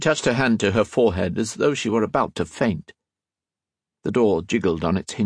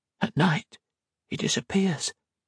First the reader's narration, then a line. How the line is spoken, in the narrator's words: whispered